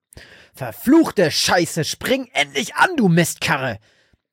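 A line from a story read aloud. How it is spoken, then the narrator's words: Furious roar. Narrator (German): brüllte Frank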